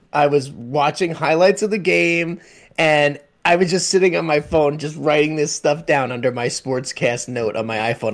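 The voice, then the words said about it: Joyful, giddy excited voice. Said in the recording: “I'm giddy right now. ... the joy in your voice is amazing.”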